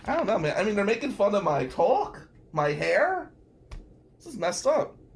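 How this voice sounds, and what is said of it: New Jersey accent. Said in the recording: “he's so cool with his Jersey accent ... I do have a Jersey accent.”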